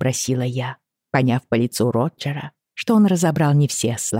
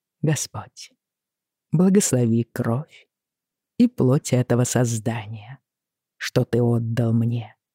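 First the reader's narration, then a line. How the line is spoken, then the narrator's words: Soft. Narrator (Russian): мягко заговорил Джейми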